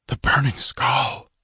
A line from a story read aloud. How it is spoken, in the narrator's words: a shuddering whisper of fear from the people of Tecutli